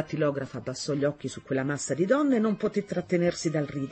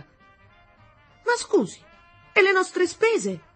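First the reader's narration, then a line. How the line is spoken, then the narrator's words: Shouted. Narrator (Italian): gridò una voce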